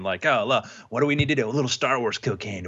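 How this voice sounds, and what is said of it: Hyped-up coked-out character voice. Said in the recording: “I don't know how you do cocaine, but that's my impression ... of that”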